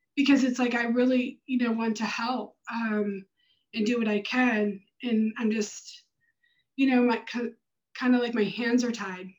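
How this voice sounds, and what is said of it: Choked up, emotional voice. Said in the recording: “Sorry, I'm a little choked up”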